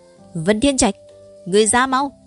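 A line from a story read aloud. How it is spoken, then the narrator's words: Loud call. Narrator (Vietnamese): Nhược Phong lớn tiếng gọi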